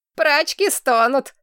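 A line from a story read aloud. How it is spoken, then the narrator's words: Giggling. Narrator (Russian): хихикнула служанка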